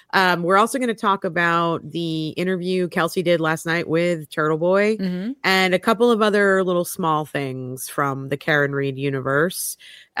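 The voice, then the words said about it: Tired, fading voice. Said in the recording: “I'm exhausted. I'm losing my voice.”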